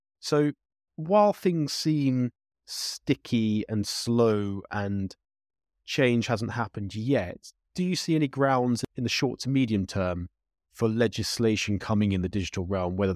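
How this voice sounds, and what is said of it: British accent. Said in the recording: “your British accent.”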